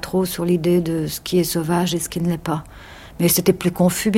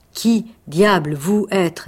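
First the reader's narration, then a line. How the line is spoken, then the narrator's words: Plain. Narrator (French): dit-il enfin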